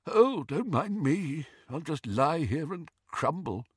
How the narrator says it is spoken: it moaned faintly

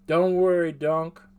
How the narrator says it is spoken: Vamra said

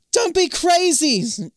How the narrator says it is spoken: Zoe shouts from the pool

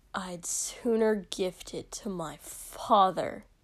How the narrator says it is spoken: Shoto hissed

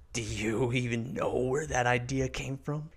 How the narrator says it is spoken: Caspian asks with a soft cackle

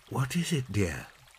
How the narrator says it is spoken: asked Mother in a whisper

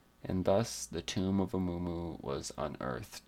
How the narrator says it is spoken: said old Khaldun

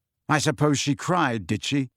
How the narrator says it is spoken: said Harry bitterly

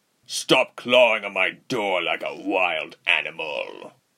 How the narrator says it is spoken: the captain barked

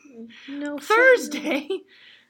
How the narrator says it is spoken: Juliet gasped, it was so soon

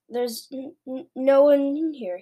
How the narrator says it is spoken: stammered

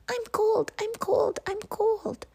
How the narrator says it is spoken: a mother lemming's pups were squeaking loudly

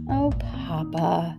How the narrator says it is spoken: Maria Elena breathed softly

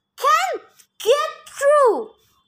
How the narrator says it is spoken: Somewhere near towards the crest of the hill, Tyson wails

